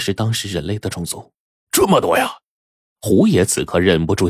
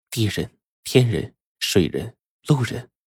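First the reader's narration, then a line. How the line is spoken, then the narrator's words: Sighing. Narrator (Chinese): 美女蛇叹了口气说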